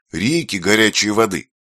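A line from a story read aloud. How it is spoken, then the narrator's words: Exclaimed. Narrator (Russian): воскликнула Юля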